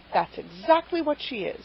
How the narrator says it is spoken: said Mrs

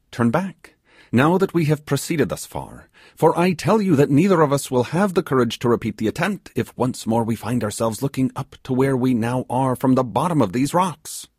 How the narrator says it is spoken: he exclaimed

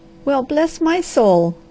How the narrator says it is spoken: cried she

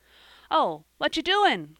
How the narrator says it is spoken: cried Joel

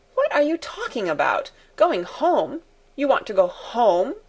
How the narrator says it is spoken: exclaimed Fräulein Rottenmeier, her anger rising

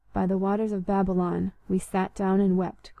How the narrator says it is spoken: quoted Blenkiron softly

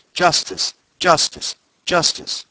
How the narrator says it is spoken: a man in the audience cried

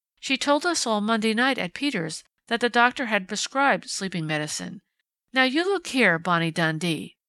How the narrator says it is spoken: she cried out sharply, answering an enigmatic smile on the detective's face

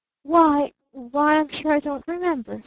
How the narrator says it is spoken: stammered her father

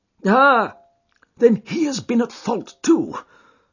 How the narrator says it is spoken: exclaimed Jones with evident satisfaction

